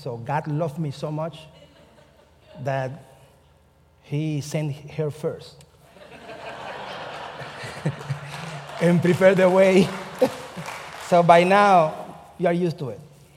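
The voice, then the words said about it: Speaks with a foreign accent. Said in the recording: “I have an accent”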